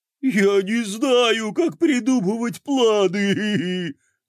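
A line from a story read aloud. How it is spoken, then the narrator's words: Sobbing. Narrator (Russian): всхлипнул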